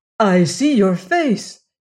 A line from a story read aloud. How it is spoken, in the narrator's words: cried